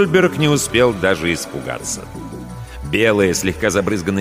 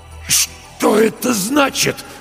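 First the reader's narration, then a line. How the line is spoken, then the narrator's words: Strained, forced words. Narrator (Russian): с трудом выдавил Стольберг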